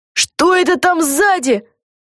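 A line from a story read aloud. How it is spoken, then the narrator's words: Sudden shout. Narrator (Russian): закричала вдруг Люси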